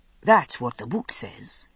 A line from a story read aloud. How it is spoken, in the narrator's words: Ian murmured with satisfaction